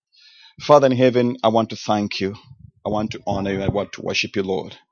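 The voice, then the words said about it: Non-native English accent. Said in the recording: “my accent, because English is my second language”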